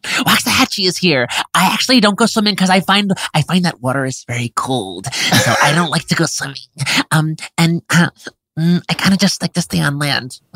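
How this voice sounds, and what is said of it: Imitates another person's voice. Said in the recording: “doing a really good impression”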